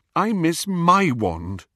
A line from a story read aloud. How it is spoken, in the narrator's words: Hermione said miserably